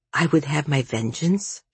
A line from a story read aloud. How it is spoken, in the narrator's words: she murmured